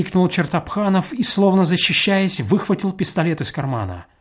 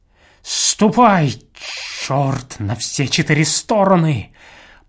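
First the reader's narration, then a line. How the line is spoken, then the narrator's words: Through clenched teeth. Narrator (Russian): Проговорил он сквозь зубы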